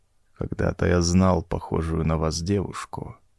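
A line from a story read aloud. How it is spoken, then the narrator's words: Quiet. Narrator (Russian): тихо сказал он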